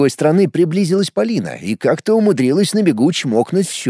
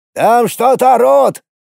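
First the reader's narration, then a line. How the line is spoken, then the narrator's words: Shouting. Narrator (Russian): крикнул Сергей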